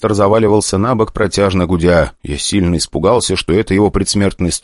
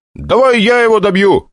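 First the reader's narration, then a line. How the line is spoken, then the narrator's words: Shouted. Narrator (Russian): крикнул я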